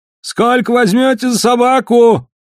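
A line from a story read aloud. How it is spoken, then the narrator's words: Shouting. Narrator (Russian): закричал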